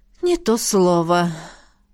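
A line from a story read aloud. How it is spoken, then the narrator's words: Sighing rector. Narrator (Russian): вздохнула ректор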